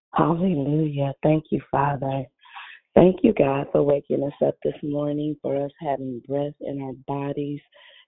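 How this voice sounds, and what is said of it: Early-morning voice with a smile. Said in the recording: “in my morning voice, I even hear a smile in my voice”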